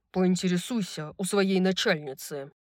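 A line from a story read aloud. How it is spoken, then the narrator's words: Barked. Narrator (Russian): рявкнул Хант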